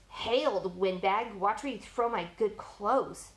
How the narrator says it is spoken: Brandon hissed

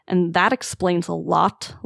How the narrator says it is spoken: Longtail murmurs

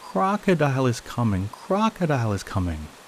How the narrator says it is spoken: exclaimed

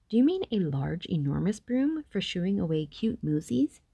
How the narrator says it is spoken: said Luke

